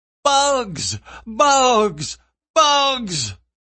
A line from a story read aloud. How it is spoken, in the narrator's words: Caleb shrieked at the top of his lungs